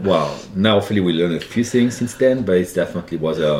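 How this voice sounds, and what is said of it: French accent. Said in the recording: “It must be the French accent. that definitely helps. You know, French accent”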